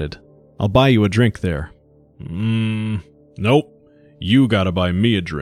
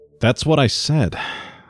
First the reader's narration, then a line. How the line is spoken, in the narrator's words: Marnay sighed